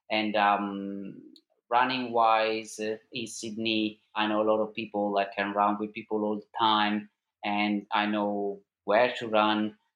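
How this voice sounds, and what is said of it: Non-Australian accent. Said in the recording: “as you can tell from my accent, we are not originally from Australia”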